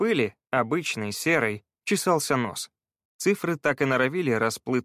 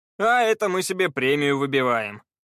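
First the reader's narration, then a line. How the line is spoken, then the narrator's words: Laughing. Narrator (Russian): рассмеялся Пит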